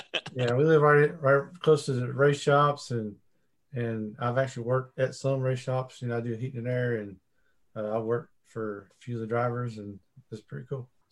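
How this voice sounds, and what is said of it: Southern American twang. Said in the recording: “I could hear the twang. I lived in Charlotte for a little bit, and I hear it. It's definitely got a southern tone.”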